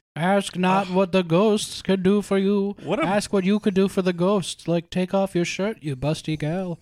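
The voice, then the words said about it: Weak John F. Kennedy impression. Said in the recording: “A great Kennedy impersonation, ... You didn't even throw in an IRA ... which would have identified you as Kennedy ... it's just somebody who works in the White House who's never heard John F. Kennedy speak.”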